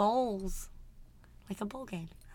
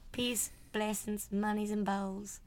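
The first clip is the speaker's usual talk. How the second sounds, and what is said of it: Weird put-on accent. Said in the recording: “I was saying it in a weird accent. ... Hate that accent.”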